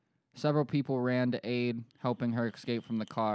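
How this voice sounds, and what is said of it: Usual voice. Nothing is said of it.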